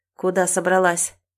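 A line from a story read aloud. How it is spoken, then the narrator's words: Angry growl. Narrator (Russian): зло рычит Романов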